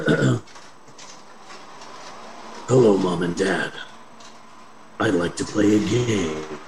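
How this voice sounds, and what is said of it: Jigsaw impression as an 8-year-old. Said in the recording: “an impression for you. This is an impression of Jigsaw if he was an 8-year-old.”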